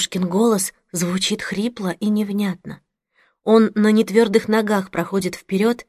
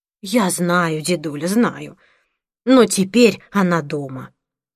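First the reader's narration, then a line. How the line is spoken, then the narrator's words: Plain. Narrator (Russian): говорит мама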